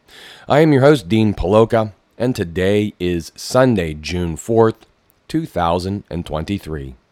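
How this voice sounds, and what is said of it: Low, froggy voice. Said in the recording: “My voice is going low. I have just gotten over a pretty nasty cold, so I'm still sounding a little froggy here”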